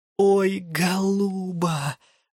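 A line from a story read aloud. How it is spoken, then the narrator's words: Inward moan. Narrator (Russian): застонала я про себя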